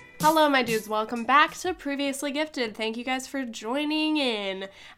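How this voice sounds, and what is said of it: Sick-sounding voice. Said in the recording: “I am sick and you can probably hear it in my voice”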